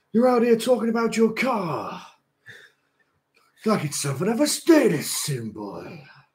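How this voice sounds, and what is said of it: Put-on American wrestler promo voice. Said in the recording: “I'm just going to do an American accent because I can't actually do Triple H ... That was more like Stone Cold, wasn't it?”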